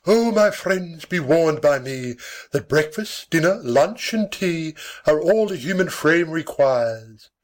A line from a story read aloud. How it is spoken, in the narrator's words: lamenting his untimely death, with his latest breath, cried